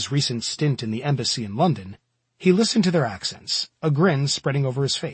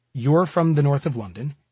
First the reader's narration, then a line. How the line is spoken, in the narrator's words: he said